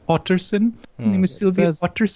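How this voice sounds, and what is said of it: Imitated Scandinavian accent. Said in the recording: “she's trying to play off a Scandinavian accent”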